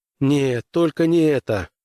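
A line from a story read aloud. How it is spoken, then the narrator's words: Groaning. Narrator (Russian): простонал Граймс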